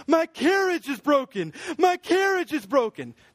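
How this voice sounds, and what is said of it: Whiny complaining character voice. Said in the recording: “my Piper impersonation. ... he's just whining, complaining”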